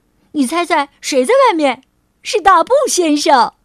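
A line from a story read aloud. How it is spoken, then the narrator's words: Calling out. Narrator (Chinese): 托托喊道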